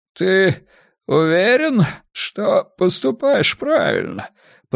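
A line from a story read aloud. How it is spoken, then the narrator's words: Hoarse rasp. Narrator (Russian): прохрипел мэр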